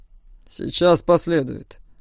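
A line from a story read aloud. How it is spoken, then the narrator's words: Growled, dragon. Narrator (Russian): рыкнул дракон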